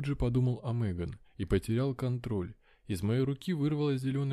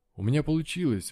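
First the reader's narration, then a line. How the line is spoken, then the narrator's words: Exclaimed. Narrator (Russian): воскликнул я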